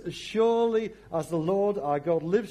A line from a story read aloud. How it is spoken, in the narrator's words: she replied